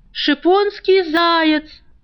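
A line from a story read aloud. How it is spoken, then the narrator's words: Market woman yelling. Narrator (Russian): орала торговка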